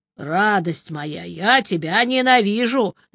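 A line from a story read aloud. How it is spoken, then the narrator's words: Good-natured grumble. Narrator (Russian): добродушно проворчал я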